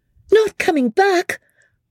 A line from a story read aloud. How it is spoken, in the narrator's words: cried out Georgie